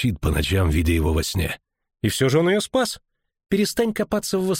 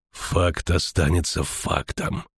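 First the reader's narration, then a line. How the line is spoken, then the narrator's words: Angry metallic voice. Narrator (Russian): повторил ведьмак злым металлическим голосом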